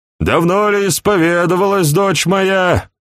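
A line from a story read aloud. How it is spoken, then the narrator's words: Loud nasal drone. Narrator (Russian): громко прогнусавил монах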